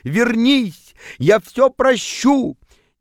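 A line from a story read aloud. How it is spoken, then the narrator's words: Shouting. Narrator (Russian): кричал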